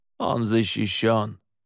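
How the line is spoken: Snort. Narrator (Russian): Александр фыркнул

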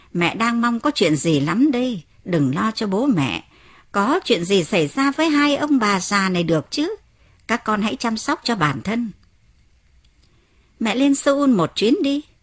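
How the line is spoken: Laughing loudly. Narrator (Vietnamese): mẹ cười lớn và nói

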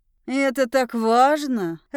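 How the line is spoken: Growling. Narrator (Russian): рычал он

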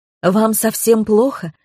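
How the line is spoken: Exclaimed from behind. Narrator (Russian): воскликнула за моей спиной Галина

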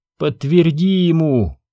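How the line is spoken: Pleading woman. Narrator (Russian): взмолилась она

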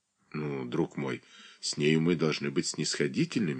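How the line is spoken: Soft and gentle. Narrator (Russian): мягко промолвил

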